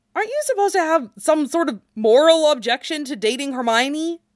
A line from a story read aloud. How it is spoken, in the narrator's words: Harry asked desperately